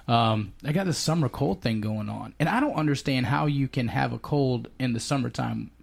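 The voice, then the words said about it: Congested voice from a cold. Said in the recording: “my voice has changed a little bit. I've got this summer cold.”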